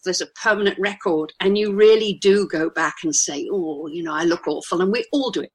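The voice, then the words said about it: Posh British accent. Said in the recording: “I'm a Brit. Listen to my accent. I think I'm a poncy old Brit. You know, I sound kind of toffee nosed and frightfully, frightfully straight out of I don't know one of the BBC series”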